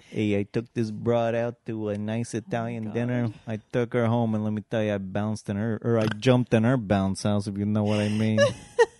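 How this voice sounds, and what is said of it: Put-on old New York accent. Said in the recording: “this is the New Amsterdam accent, all right? It's not Italian.”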